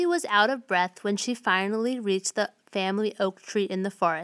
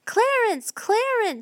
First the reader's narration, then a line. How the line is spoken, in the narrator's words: she cried